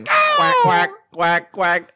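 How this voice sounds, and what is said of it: Duck quacking impression. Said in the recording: “my duck impression”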